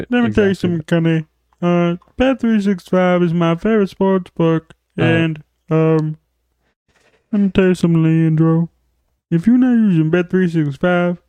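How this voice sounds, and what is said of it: Imitates another person's voice. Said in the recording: “That's a good Jesse impression. ... That's my Charles Barkley.”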